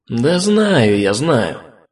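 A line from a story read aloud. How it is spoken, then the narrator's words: Sighing. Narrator (Russian): Снова вздохнул я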